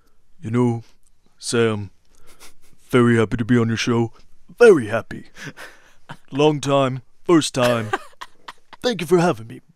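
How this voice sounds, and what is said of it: Imitates another person's voice. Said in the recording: “I really like doing Brad Pitt. ... That's a really good da. ... It's his 12 monkeys. It's in 12 monkeys.”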